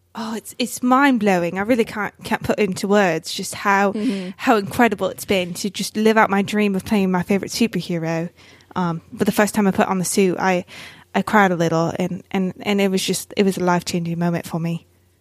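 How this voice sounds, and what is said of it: Put-on British accent. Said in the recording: “have excellent British accent. Everyone, prepare your ears for this flawless British accent”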